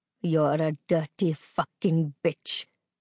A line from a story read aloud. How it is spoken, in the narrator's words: he snarled